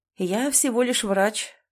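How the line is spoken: Calm retort. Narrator (Russian): парировал Алексей Владимирович спокойно

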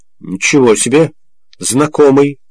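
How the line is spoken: Snorting. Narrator (Russian): хмыкнул Обнорский

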